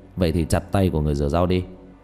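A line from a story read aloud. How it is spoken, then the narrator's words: Cold laugh. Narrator (Vietnamese): Diệp Thiếu Dương lạnh lùng cười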